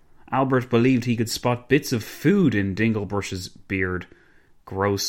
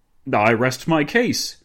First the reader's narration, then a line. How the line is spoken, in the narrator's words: Dinglebrush exclaimed